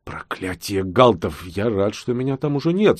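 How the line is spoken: Muttered through clenched teeth. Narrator (Russian): сквозь зубы пробормотал Бигман, немного побледнев

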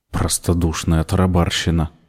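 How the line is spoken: Muttered. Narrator (Russian): пробормотала Верна, спеша догнать Мордсит

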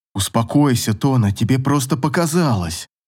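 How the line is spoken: Soothing, comforting. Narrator (Russian): Рассел пытался утешить Тону

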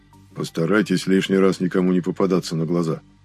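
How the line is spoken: Gruff grumble, big man. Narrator (Russian): буркнул напоследок бородатый громила

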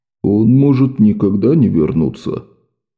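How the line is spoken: Quiet reply. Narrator (Russian): тихо ответил ей Квентин

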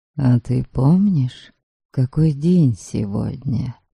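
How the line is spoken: Whisper. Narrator (Russian): Шепнул Борька

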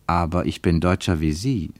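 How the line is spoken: Plain. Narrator (German): sagte Ernst

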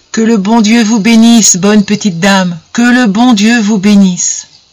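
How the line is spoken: Repeating while sobbing. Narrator (French): Elle répétait constamment les mêmes paroles en sanglotant

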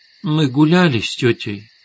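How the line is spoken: Sleepy arguing child. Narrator (Russian): сонно спорила дочка

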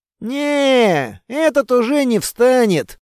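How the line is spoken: Smug drawl. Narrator (Russian): протянул явно довольный собой Строгов

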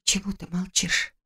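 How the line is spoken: Barely audible frightened whisper. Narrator (Russian): спросила я едва слышным испуганным шепотом

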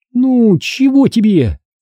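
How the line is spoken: Displeased whining. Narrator (Russian): недовольно захныкала она

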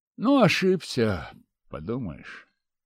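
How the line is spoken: Sigh. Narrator (Russian): вздохнул я

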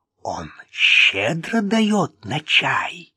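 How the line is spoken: Stage whisper. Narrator (Russian): спросил Вик театральным шепотом

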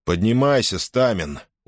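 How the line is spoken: Tired. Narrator (Russian): устало проговорил

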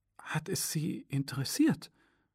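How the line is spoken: Near-whispered question. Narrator (German): fragte ich fast flüsternd

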